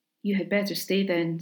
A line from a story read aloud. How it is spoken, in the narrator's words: said Asipatel